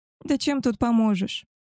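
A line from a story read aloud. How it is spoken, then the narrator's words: Dejected she-wolf's voice. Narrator (Russian): поникшим голосом проговорила волчица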